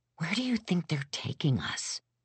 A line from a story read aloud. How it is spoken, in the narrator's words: I whispered to Foxy